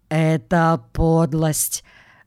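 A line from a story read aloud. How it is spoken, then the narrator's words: Muffled, dull voice. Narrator (Russian): глухо говорит он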